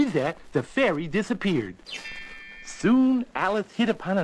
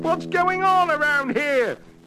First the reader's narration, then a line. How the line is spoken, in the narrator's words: yelled the now tiny dog catcher